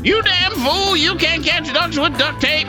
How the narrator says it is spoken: Old man yells back

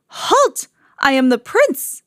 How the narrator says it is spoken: he cried

